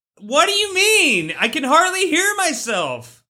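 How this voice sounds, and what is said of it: Shouting loudly. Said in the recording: “Why are you shouting?”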